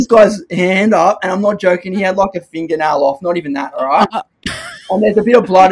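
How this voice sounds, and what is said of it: Usual voice. Nothing is said of it.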